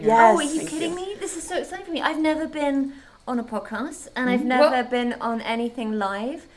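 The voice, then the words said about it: British accent. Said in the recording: “She's British, so just soak in that. ... That lovely accent, just soak it in.”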